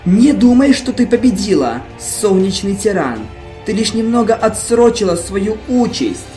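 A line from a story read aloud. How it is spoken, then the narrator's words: Hissed. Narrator (Russian): Прошипел Нексус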